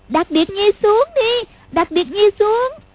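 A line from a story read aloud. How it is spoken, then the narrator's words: Frightened hurried cry. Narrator (Vietnamese): Lục Vô Song cảm thấy sợ quá, vội kêu lên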